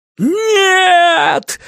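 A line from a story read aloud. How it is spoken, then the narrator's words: Dark man howling. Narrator (Russian): взвыл темный человек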